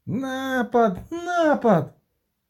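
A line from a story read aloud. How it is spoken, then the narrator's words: Shrieked from the floor. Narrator (Ukrainian): заверещала з підлоги худа особа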